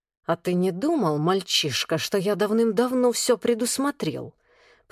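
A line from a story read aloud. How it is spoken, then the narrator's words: Hissed. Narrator (Russian): прошипел Шеша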